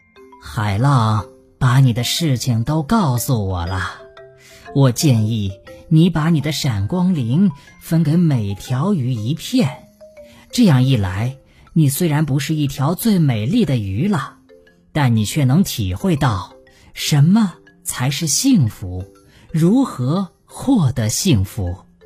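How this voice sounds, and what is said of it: Low deep voice. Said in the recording (Chinese): “章鱼用低沉的声音说”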